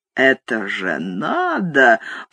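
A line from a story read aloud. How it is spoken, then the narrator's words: Muttered with chuckling. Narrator (Russian): пробормотал он и продолжал посмеиваться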